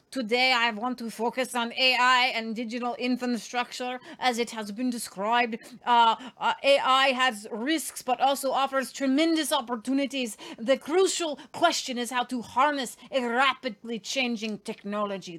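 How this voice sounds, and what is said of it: Put-on villain accent. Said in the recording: “That's my bad guy accent”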